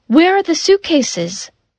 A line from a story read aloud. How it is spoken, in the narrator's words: Suddenly, Lisa cried